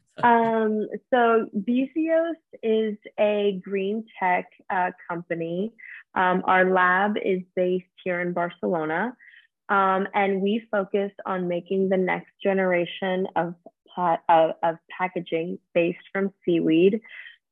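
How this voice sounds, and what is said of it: Slightly raspy voice. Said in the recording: “Excuse my voice. That's a little raspy today.”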